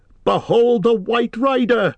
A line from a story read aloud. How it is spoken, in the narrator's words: cried Aragorn